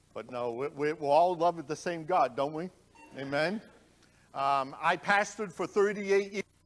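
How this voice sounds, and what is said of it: Slight Boston accent. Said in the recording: “I have a little accent... just so you got the city of Boston”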